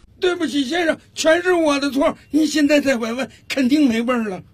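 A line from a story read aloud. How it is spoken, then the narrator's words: Loud shout from afar. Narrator (Chinese): 服务生从远处大声喊道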